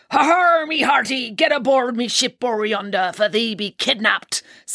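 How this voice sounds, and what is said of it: Exaggerated pirate voice. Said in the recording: “doing a pirate voice ... Everybody loves a pirate voice”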